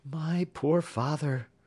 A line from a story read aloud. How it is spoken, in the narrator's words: replied Jenny, sighing